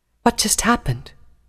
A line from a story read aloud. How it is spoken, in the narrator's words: Nightcanter asked softly